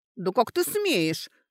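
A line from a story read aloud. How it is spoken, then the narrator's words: Indignant. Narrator (Russian): возмущенно начала Костелянша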